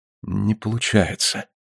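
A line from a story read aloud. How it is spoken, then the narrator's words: Very quiet, strained. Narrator (Russian): Мария не вынесла и сказала очень тихо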